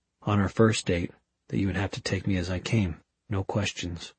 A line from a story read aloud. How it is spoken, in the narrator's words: Magnus said softly